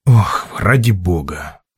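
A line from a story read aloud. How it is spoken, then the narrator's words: Sighing. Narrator (Russian): вздохнул диктор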